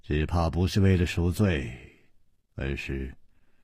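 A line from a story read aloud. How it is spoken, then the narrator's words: Sighing. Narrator (Chinese): 楚留香叹了一口气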